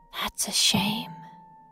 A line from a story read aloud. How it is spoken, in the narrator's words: she whispers